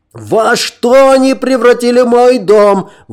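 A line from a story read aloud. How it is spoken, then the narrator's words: Yelling. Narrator (Russian): вопил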